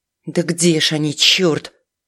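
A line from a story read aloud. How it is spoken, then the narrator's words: Anxious mutter. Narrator (Russian): встревоженно пробормотала она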